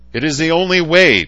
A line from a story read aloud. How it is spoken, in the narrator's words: Paul shouted